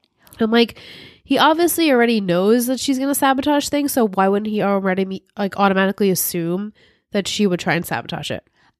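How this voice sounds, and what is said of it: Hoarse, congested voice fading out. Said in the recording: “I am getting over a sinus infection. So I keep losing my voice.”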